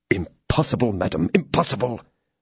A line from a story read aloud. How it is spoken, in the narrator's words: muttered Felton